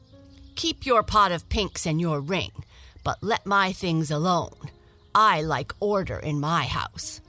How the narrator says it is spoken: he said angrily

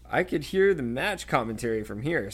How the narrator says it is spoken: said Ron, his voice now shaking with laughter

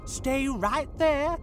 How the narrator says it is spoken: shouted Fran

